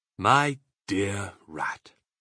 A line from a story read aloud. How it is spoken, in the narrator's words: he said softly